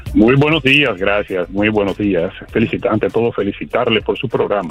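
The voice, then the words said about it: Announcer-like broadcaster voice. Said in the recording (Spanish): “con esa voz de locutor”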